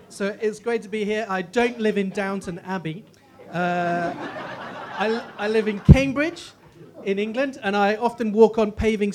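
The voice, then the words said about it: English accent. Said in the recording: “I have an English accent, which means I sound 50% more intelligent than I really am”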